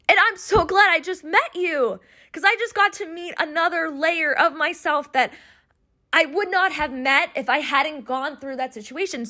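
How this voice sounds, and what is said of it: Emotional, choked-up voice. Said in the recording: “you probably hear in my voice, I'm like getting super emotional”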